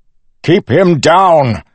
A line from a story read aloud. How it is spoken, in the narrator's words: Suit shouted